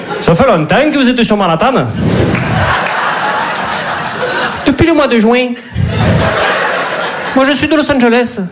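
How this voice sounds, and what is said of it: Put-on southern French Midi accent. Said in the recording (French): “T'imagines une comédie romantique à New York avec l'accent du Midi ?”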